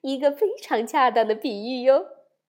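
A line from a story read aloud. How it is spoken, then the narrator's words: Smiling mother. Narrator (Chinese): 熊妈妈笑着说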